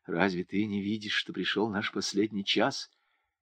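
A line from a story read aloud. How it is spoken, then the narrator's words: Whisper. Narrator (Russian): Туган рядом шептал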